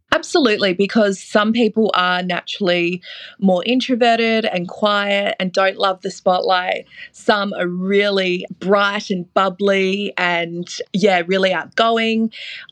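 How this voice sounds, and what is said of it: Australian accent. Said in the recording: “being Australian ... They love the accent.”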